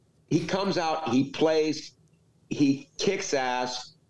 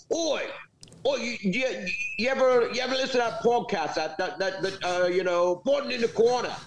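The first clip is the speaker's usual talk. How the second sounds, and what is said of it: Bad put-on British accent. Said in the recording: “use a really bad British accent”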